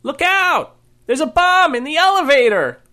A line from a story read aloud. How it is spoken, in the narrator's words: the woman on the left yelled